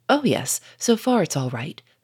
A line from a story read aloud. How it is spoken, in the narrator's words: said Lupin